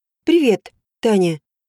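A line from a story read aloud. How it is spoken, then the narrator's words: Even-toned greeting. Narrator (Russian): Ровным голосом поздоровался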